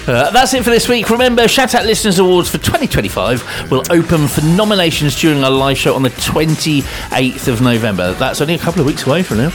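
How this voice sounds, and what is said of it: Radio announcer voice. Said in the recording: “That's our announcer voice.”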